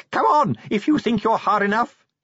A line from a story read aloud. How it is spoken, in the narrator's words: he screamed wildly